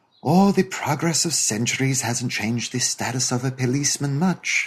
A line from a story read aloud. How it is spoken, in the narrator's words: said sweetly